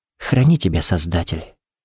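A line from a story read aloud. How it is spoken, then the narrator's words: Whisper. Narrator (Russian): прошептала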